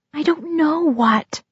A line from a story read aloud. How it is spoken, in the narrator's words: I whispered